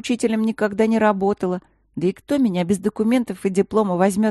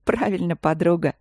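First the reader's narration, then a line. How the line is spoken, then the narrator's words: Laughing. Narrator (Russian): рассмеялась Ангелина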